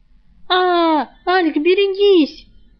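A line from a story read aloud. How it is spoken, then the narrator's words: Shrieking. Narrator (Russian): завизжала Рыска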